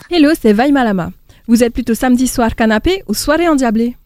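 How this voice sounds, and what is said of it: Slight Tahitian accent. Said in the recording (French): “son petit accent de Tahiti”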